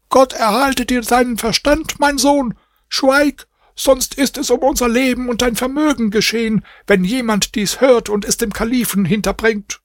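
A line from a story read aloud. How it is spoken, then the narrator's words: Mother screaming. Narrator (German): Seine Mutter schrie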